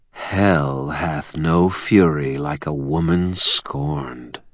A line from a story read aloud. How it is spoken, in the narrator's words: purred